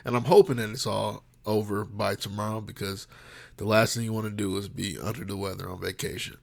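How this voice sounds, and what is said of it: Slightly congested, sinus-affected voice. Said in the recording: “my sinuses started kicking in, so you might hear that in my voice a little bit”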